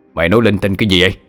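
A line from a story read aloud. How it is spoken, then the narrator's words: Stern shout. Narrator (Vietnamese): Lão đanh mặt quát lên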